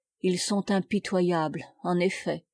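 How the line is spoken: Muffled murmur. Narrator (French): murmura-t-il d'une voix sourde

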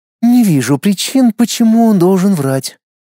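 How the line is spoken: Sighing. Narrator (Russian): вздохнула принцесса

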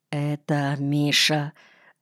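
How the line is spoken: Quiet. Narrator (Russian): сказал я тихо

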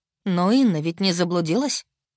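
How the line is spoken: Snorted. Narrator (Russian): фыркнула Таарна

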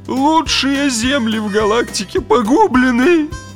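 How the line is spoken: Grief-stricken moan, huge man. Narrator (Russian): горестно простонал клиент, верзила 7 футов ростом с интенсивно голубым цветом лица

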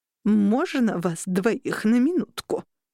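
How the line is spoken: Old woman, through teeth. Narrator (Russian): процедила бабуля

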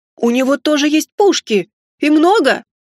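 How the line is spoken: Merchant's excited exclamation. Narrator (Russian): воскликнул китайский купец, даже подпрыгнув на месте

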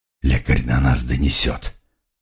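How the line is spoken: Hoarse rasp. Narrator (Russian): прохрипел

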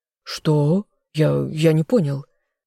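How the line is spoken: Stammering. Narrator (Russian): заикаясь, произнес Азазель

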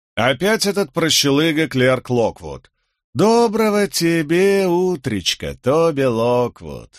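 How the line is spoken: Singsong. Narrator (Russian): нараспев произнес он

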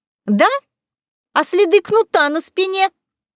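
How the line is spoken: Shrill voice. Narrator (Russian): визгливо произнесла та, которую назвали Беатрис

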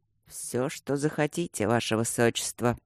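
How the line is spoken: Hoarse stunned mutter. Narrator (Russian): хрипло пробормотал Люк, осознавая, что это не шутка, и он действительно свободен

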